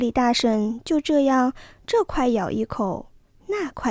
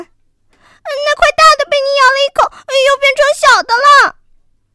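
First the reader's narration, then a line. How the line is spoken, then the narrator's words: Anxious cry. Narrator (Chinese): 哥俩 急得叫起来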